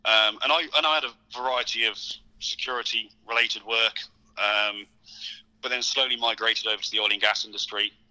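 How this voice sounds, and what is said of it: British accent. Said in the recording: “you mentioned you're from the UK, obviously your accent as well”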